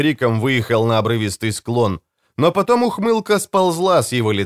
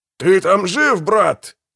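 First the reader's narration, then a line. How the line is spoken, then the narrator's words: Shout. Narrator (Russian): закричал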